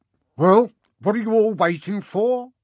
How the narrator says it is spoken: she barked

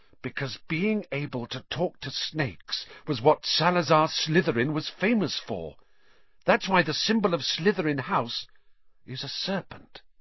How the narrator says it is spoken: said Hermione, speaking at last in a hushed voice

